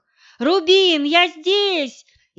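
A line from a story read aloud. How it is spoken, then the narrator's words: Shouting with full force. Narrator (Russian): изо всех сил закричала я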